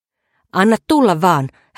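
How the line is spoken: Shouted. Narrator (Finnish): hän huusi miehelle

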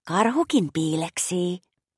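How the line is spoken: Whispered to herself. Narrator (Finnish): Maša kuiskasi itsekseen

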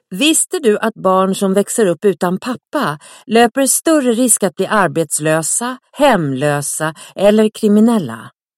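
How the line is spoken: Parents shouting in unison. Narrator (Swedish): Föräldrarna skriker i kör

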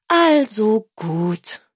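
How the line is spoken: Sigh. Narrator (German): seufzte Tilda

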